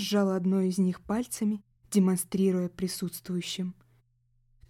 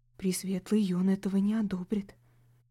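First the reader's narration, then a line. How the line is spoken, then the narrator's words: Whispering in ear. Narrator (Russian): шепнул мне на ухо один из парней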